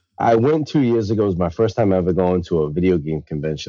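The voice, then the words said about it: New England accent. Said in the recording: “you are a fellow New Englander, as if people couldn't tell from your accent”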